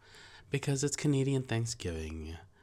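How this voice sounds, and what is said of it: Odd put-on accent. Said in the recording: “I don't know what that accent was. ... That's offensive.”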